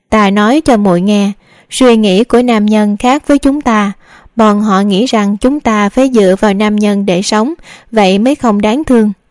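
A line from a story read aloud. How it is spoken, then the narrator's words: Laughing loudly. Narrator (Vietnamese): Đường đại phu nhân cười lớn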